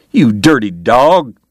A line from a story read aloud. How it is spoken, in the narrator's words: James cried, backing away